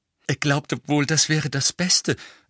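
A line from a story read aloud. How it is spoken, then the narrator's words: Breathless. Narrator (German): sagte Hermine ziemlich atemlos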